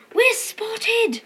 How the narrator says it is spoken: whispered Ortsy from under his cape

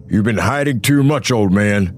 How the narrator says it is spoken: the hunter growled

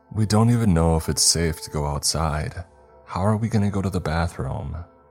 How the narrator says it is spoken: Sarah pinched the bridge of her nose and sighed, like she was completely sick of my shit and had no energy left to deal with me

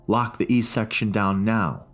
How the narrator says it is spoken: he shouted between breaths

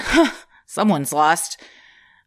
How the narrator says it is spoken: my boyfriend chuckled and said

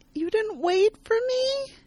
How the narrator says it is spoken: Lena, worn down from missing out on everything and traveling for days, whines

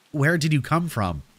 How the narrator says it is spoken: I asked him

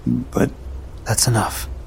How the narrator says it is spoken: she said quietly

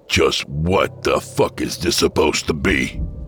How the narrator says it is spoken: He growled

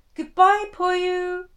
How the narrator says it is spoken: Kanta shouted

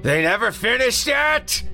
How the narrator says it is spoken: the creature screamed

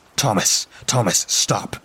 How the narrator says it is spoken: I said desperately

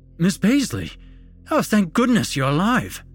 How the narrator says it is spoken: the explorer exclaimed

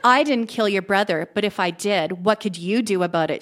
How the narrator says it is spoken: she said in an evil voice

